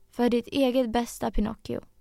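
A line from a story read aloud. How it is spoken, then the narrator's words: Cricket speaking calmly. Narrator (Swedish): sa syrsan lugnt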